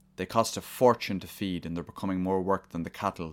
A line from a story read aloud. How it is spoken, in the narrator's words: said Ryan, his voice low and angry